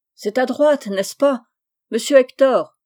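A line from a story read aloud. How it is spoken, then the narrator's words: Pitiful wailing voice. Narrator (French): criait la voix lamentable de Monsieur Chabre, dont le flot battait déjà les reins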